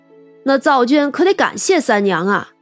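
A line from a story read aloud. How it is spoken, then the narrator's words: Laughing. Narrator (Chinese): 长生笑道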